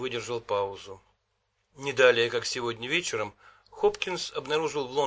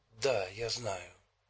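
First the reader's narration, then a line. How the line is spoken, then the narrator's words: Whispered reply, leaning close. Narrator (Russian): шепнула в ответ Китти, наклонившись к нему навстречу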